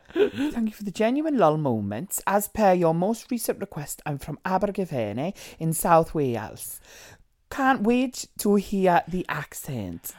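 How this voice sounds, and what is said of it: Poor put-on Welsh accent. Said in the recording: “How would you say that in a Welsh accent? ... This is the worst Welsh accent ever.”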